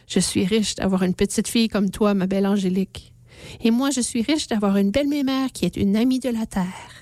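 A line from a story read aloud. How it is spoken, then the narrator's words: Grandmother, gentle smiling speech. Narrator (French): Mémère sourit doucement et dit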